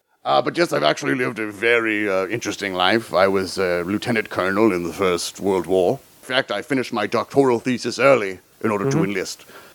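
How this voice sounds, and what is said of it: Put-on British accent. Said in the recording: “talking in a British accent”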